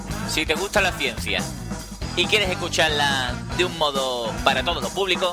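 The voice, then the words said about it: Andalusian Spanish accent. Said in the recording (Spanish): “con acento andaluz”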